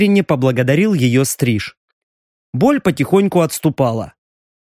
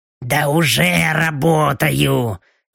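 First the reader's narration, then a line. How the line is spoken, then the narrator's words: Displeased grumble. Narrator (Russian): недовольно проворчала Белочка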